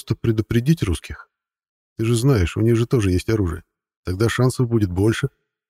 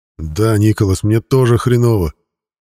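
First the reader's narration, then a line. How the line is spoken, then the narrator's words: Through gritted teeth. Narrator (Russian): сквозь зубы произнес Уилсон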